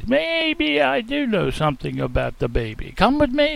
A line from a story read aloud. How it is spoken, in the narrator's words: exclaimed